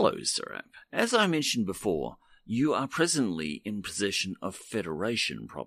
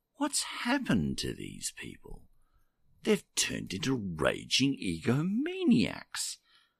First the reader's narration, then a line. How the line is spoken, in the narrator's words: said quietly